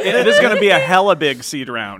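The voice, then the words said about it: Mock Northern Californian accent. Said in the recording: “do you have a Northern Californian accent?”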